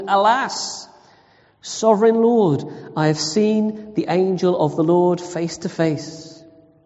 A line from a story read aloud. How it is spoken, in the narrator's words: Gideon realized it was the angel of the Lord, he exclaimed